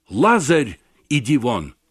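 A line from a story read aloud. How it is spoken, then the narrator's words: Loud cry. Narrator (Russian): он возвал громким голосом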